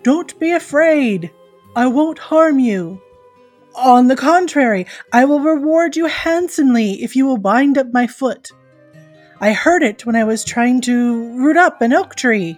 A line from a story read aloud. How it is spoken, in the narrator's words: the giant called out